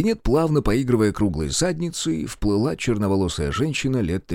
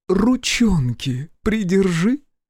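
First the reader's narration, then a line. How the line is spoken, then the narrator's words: Deep husky voice. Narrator (Russian): глубокий голос с хрипотцой сказал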